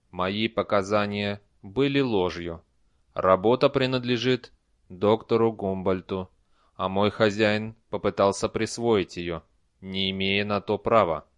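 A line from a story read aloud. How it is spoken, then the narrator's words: Even voice. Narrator (Russian): Эр Айт сказал ровным голосом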